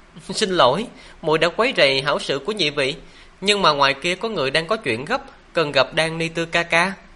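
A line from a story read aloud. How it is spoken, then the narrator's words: Giggling. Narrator (Vietnamese): Lộ Thiến che miệng cười khúc khích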